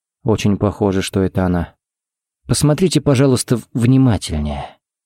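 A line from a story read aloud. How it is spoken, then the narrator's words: Gentle request. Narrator (Russian): попросил Харри мягко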